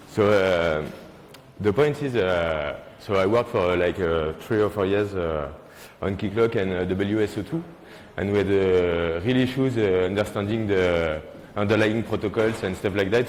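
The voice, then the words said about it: French accent. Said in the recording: “I'm really sorry for my French accent.”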